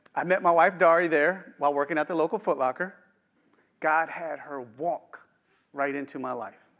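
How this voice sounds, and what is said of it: Slight West Virginia twang. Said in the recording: “Born and raised in the Eastern Panhandle of West Virginia. You'll hear a little twang here and there. You go, that ain't the way you're supposed to say that word”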